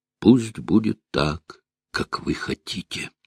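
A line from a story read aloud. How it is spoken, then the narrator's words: Quiet. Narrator (Russian): опустив голову, мономах тихо промолвил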